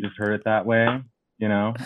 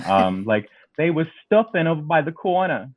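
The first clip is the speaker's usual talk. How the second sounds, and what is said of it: Put-on Brooklyn or Queens accent. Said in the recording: “always in like a really great, like, you know, Brooklyn. Or like, you know, like more Queens accent.”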